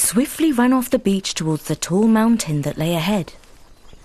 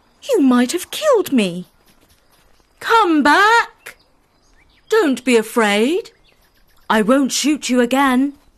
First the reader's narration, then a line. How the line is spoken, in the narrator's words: exclaimed the prince